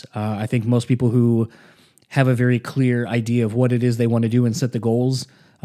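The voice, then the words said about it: Hoarse, strained voice. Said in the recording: “as you kind of can hear, I'm still losing my voice a little bit from all the yelling”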